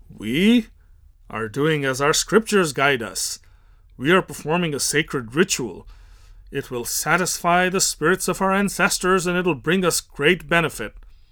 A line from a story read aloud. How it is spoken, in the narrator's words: The Brahmin haughtily replies